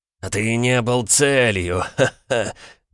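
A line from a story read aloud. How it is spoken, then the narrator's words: Loud laughter. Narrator (Russian): расхохотался Эйка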